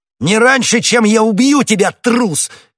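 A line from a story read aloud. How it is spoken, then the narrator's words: Shouting. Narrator (Russian): крикнул Д'Артаньян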